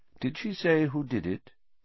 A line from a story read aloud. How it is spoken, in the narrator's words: said Dumbledore quietly